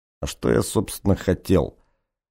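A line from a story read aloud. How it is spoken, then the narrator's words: Muttering. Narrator (Russian): бормотал Картье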